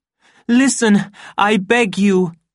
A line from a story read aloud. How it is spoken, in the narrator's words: cried the savage